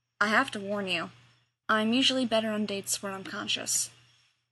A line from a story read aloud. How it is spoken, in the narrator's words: John sighed, and said